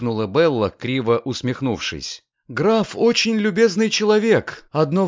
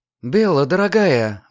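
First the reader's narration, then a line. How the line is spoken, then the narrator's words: Exclaiming. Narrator (Russian): воскликнула мисс Врейн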